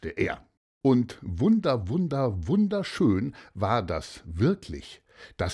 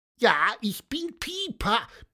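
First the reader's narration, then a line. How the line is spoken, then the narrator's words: Squeaky piping voice. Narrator (German): piepste Pieper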